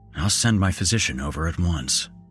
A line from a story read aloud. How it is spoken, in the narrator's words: I muttered to myself